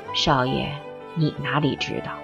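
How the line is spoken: Sighing. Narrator (Chinese): 韦太太叹了一口气

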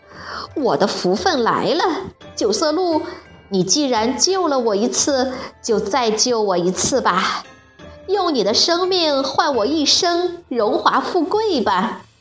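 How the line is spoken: Beaming, muttering to himself. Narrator (Chinese): 顿时笑逐颜开，自言自语地说

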